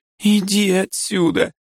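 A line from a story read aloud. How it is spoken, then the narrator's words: Curt words, plaintive sob. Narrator (Russian): бросает она и жалобно всхлипывает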